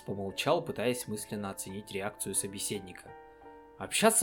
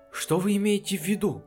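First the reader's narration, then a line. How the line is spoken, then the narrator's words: Frightened question. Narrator (Russian): испуганно спросил работник мастерской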